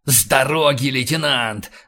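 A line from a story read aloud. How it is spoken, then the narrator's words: Growl. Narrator (Russian): зарычал Рэндалл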